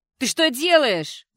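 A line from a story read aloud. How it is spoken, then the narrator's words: Yelling. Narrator (Russian): заорала Кэти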